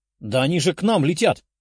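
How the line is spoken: Exclaiming. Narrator (Russian): воскликнула Лиза

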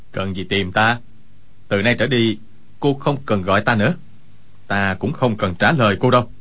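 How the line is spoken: Cold. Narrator (Vietnamese): Quách Tĩnh lạnh lùng nói

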